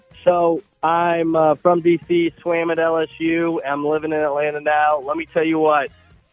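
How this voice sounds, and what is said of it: Slight Cajun accent. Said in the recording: “he's got a little Cajun”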